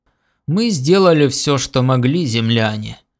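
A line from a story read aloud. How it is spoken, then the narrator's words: Deep booming voice. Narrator (Russian): забасил Гор Холл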